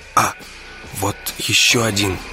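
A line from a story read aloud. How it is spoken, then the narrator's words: Quiet. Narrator (Russian): сказал он тихо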